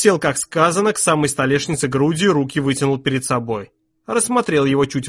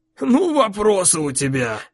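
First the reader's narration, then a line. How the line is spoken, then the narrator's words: Exhaled half-laugh. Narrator (Russian): выдохнул с каким-то полусмехом Сет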